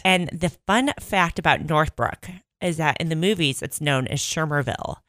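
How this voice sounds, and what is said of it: Slight Chicago-area accent. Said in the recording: “you kind of have an accent ... I have a little bit of the Mike Ditka thing going on once in a while ... I am from Northbrook, Illinois ... just north of Chicago”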